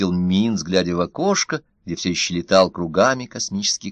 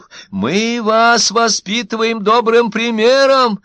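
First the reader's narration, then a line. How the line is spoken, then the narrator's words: Shouting. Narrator (Russian): крикнул изгнанный Зефир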